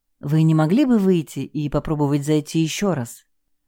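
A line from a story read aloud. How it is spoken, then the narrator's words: Soft suggestion. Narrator (Russian): мягко предложила я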